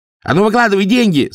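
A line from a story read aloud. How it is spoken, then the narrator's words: Yell. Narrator (Russian): заорал он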